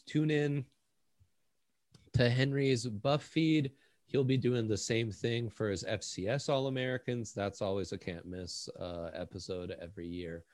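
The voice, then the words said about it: Sarcastic, very dry delivery. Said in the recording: “I'm being sarcastic. That's only funny to me, said in a really dry voice.”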